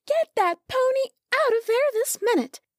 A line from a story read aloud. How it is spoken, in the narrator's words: yelled